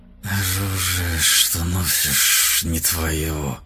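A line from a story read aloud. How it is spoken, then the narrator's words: Hiss. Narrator (Russian): Шипел золотой змей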